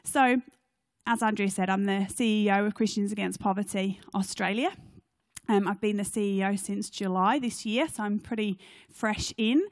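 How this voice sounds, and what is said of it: Non-Australian accent. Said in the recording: “You'll notice by my accent that I'm not a local to Canberra or Australia”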